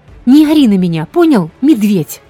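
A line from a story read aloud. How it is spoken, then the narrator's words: Loud yell. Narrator (Russian): Завопила я в ответ не хуже Кармак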